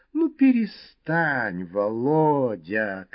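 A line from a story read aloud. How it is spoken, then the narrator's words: Capricious drawl. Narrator (Russian): капризно протянула она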